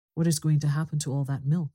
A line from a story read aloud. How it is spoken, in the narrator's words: said someone